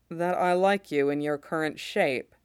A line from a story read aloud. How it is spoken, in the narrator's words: Mace says dryly